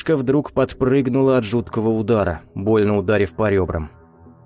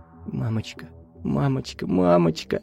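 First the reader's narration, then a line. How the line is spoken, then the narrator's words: Trembling whisper. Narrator (Russian): шептать дрожащими губами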